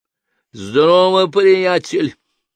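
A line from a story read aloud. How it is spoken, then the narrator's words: Booming deep bass. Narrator (Russian): прогремел густой бас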